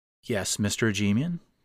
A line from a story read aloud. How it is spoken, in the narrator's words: the nurse asked